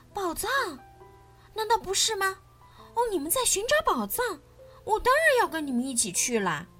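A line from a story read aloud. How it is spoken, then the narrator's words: Shouting. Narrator (Chinese): 他大喊道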